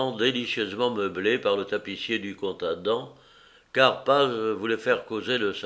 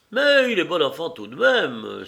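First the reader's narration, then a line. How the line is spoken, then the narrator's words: Happy exclamation. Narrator (French): s'écriait Chapuzot, heureux de se voir habillé tout en drap bleu d'Elbeuf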